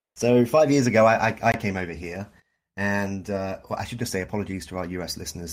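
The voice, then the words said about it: Noticeable non-Canadian accent. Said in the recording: “I'm not originally from Canada ... the accent was ... not a dead giveaway.”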